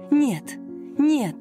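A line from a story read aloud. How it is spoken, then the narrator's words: Tearful pleading. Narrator (Russian): сквозь слезы попросила Жанна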